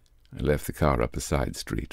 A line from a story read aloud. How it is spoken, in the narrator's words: mumbled the commissaire with a grin